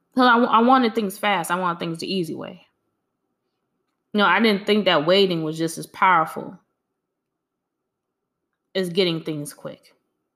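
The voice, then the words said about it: Speaks with a noticeable accent. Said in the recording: “Please excuse my accent. This is just the way I talk.”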